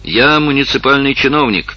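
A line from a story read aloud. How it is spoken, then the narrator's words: Shouted. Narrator (Russian): крикнул Губольт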